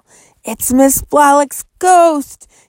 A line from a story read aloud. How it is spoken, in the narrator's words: he cried, his face ashen